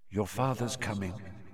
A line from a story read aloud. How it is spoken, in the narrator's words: she said quietly